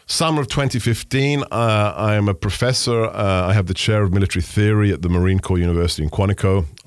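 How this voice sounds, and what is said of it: West London accent. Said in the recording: “a kid from West London ... a guy with a funny accent”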